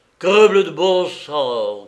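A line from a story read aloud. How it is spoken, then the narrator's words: Shouted. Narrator (French): cria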